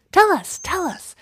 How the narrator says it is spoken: chirped in a chorus

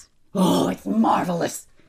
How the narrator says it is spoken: George shouted

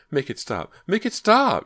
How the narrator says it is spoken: cried

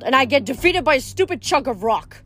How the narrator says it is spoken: growled

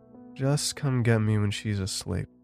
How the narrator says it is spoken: she muttered, already dozing back off

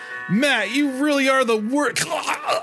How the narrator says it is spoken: His voice cut off by the claws jutting out of his chest and the blood now filling his throat

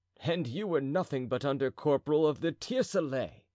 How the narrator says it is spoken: replied D'Artagnan, laughing

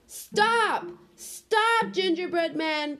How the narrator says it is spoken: cried the little old woman

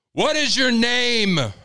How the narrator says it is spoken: Miles yelled

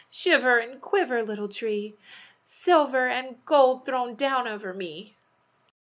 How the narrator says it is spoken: She cried

